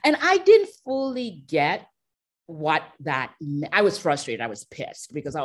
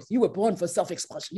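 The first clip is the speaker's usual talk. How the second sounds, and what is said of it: Deep voice imitating another person. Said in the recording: “you know that deep voice.”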